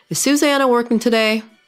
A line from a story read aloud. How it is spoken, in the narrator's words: yelled